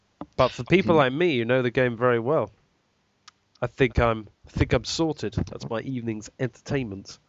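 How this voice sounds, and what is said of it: Strained, failing voice. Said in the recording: “my voice is giving out”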